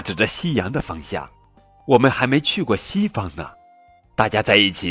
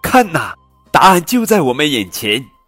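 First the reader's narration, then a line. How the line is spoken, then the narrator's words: Loud shout. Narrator (Chinese): 他高声喊道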